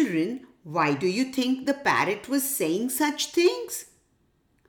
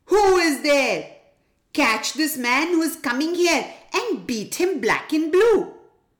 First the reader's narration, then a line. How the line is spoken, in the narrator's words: the tribal king's parrot started shouting loudly